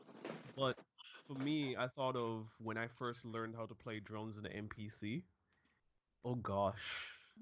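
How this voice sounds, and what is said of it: Rough, worn-out hoarse voice. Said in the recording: “sorry if I sound like a dead chicken on this voice, guys. My voice has been trash all for like the last month.”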